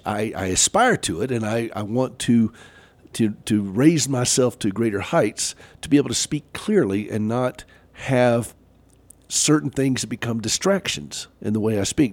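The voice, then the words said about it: Southern American accent. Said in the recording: “I do have a Southern accent. I cannot get rid of that.”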